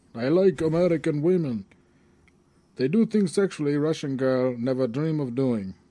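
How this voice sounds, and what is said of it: Put-on Russian accent. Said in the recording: “he's talked in this Russian accent, which is supposed to be funny or whatever.”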